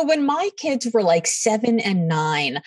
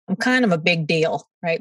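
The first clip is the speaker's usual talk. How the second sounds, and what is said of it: Weak put-on Brooklyn accent. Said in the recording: “to quote her in her amazing Brooklyn accent ... Well, that wasn't a very good Brooklyn accent”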